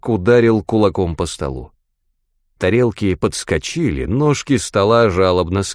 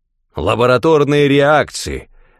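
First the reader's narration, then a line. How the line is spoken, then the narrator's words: Barked. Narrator (Russian): рявкнул он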